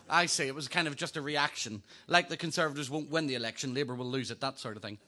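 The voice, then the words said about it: Northern Irish accent. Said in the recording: “You better get used to this accent. ... Originally from Northern Ireland”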